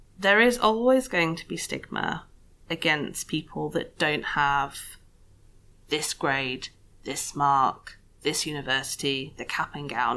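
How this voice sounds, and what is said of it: Posh English accent. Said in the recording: “I've got this really weird posh voice, which is just totally invented, by the way ... I'm actually from Sheffield. I'm Northern. I've just lost my accent”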